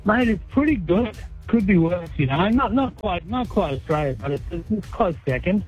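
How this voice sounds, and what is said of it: Australian accent. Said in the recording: “You haven't lost your accent.”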